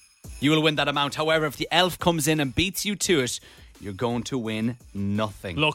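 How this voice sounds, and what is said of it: Usual voice. Nothing is said of it.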